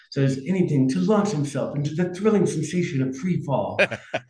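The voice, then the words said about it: Put-on Australian accent. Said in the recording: “an Australian accent”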